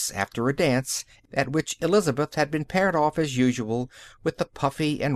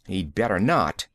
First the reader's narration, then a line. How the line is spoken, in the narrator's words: she spat out